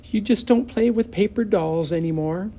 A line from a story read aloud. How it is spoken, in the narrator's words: Leslie gave a sigh